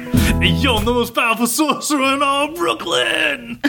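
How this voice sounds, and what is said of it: Put-on Brooklyn accent. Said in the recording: “Classic Brooklyn accent.”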